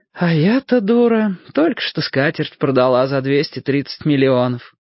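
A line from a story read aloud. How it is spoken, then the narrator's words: Sighing. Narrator (Russian): вздохнув, сказала Серафима Петровна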